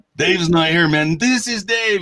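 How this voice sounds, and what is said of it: Imitates another person's voice, Hispanic accent. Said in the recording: “does an excellent Hispanic ... you got your Cheech Marin”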